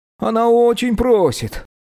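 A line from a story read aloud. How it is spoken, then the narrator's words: Pleading. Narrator (Russian): взмолился Куми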